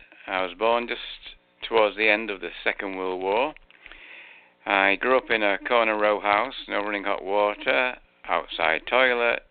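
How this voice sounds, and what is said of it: English Manchester accent. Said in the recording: “I was born in Manchester. You can tell I've got an English accent.”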